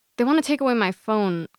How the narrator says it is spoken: Khadija says

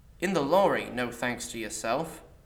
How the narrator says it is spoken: Alice replied

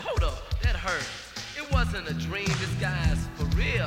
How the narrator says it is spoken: I laughed at first and I said

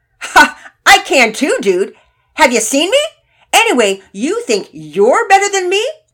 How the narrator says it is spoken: retorted loudly

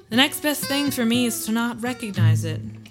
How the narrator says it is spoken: he added coolly

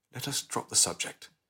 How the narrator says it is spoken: said gently

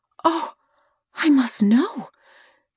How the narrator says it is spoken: she whispered

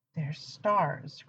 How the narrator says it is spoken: Crowley whispered, not entirely sure he was ready to be heard

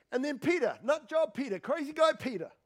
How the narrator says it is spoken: he yells out

